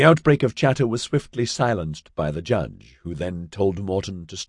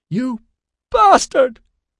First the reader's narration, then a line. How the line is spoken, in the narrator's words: Tara Jennifer Shahif leaped to her feet and screeched